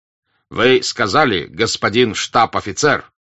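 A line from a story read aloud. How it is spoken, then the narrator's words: Offended tone. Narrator (Russian): продолжал полковник обиженным тоном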